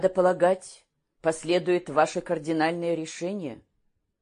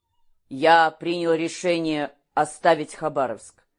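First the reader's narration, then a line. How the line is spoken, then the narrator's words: Ordinary voice. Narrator (Russian): Калмыков произнес это обычным голосом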